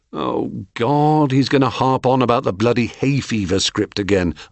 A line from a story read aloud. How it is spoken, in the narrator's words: I moaned inwardly